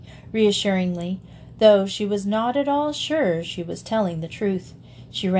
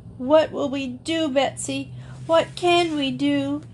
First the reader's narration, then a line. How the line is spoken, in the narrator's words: wailed